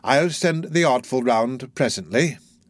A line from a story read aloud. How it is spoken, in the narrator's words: said Fagin with a sigh